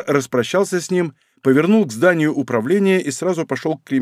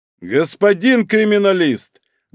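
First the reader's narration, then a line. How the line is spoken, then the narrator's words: Loud. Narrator (Russian): громко сказал он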